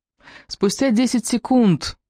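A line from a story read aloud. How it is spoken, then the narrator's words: Squeaky phone voice. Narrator (Russian): пискнул мобильник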